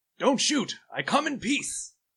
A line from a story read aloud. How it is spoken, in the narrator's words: I'm going to yell